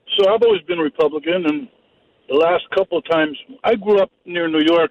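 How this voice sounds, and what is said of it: Northern US accent. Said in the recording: “A guy with your accent grew up near New York City ... I could tell you were from up north with your accent.”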